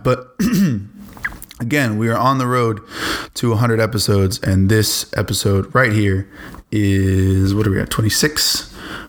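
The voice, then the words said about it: Slightly tired-sounding voice. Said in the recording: “if I'm a little tired if I sound a little tired, that's why”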